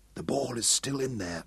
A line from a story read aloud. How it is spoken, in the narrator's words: Hal whispered to Abberley